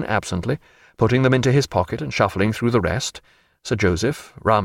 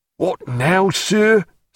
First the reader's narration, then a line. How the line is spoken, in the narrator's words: said Killick angrily